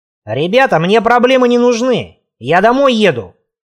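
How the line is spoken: Shrill high-pitched yell. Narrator (Russian): заорал противным высоким голоском

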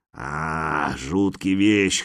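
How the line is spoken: Hoarse rasp. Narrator (Russian): хрипит он

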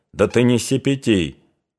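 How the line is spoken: Cold, stern. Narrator (Russian): холодно остановил его отец

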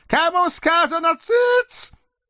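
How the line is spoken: Loud exasperated witch's bark. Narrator (Russian): не выдержав, громко рявкнула ведьма

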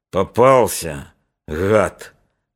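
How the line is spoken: Low gurgling voice. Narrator (Russian): клокочущим низким голосом сказал Подтелков

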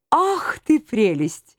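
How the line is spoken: Cooing. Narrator (Russian): проворковал Лазуронд

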